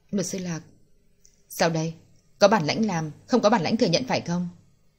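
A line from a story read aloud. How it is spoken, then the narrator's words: Clear, icy cold voice. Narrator (Vietnamese): Lạc Tranh cất tiếng nói trong trẻo nhưng vô cùng lạnh lùng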